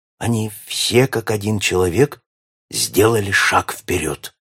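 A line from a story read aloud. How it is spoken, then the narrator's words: Whispered in ear. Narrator (Russian): шепнул ему на ухо Ален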